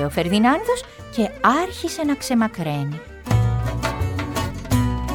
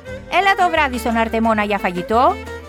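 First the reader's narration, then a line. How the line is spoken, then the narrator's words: Shouted. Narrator (Greek): του φώναξε ο Χριστόφορος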